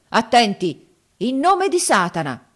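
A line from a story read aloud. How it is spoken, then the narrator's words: Solemn shout. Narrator (Italian): gridò con aria solenne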